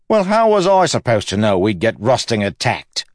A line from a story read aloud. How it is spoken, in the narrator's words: Wayne exclaimed